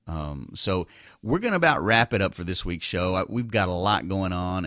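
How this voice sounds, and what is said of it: Slight Texas drawl. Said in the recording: “it may have a little drawl to it ... a little bit of a Texas accent”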